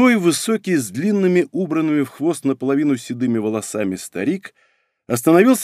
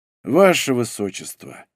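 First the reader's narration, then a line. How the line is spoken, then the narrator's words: Sigh. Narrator (Russian): вздохнул он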